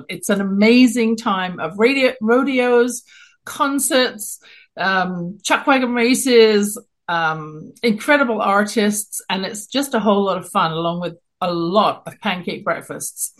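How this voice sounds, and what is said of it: London English accent. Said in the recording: “You can tell from my accent, I'm not born in Canada, originally born in London, England.”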